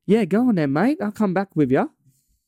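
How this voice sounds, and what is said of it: Put-on accent. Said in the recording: “That was my best accent.”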